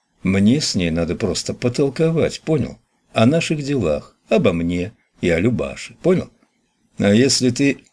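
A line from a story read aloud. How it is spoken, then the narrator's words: Conciliatory tone. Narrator (Russian): Николай сказал примиряющим тоном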